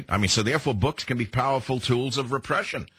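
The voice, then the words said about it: Heavy New York accent. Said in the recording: “an American broadcaster with a heavy New York accent ... he sounds like he's from New York”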